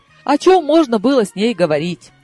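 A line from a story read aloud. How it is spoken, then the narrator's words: Laughing. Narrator (Russian): рассмеялась я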